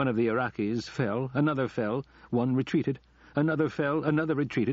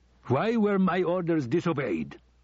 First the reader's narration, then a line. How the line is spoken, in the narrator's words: Saddam shouted